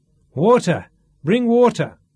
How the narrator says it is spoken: shouted Duff

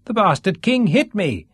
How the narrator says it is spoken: Sean complained loudly

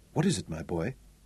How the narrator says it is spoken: Zuger asked quietly, fearfully

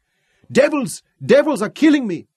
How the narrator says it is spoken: yelled with surprise and pain

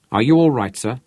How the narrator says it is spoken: said Rod

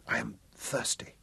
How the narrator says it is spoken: she whispered huskily

